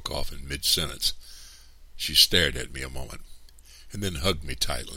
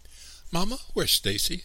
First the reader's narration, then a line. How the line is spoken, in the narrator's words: I cried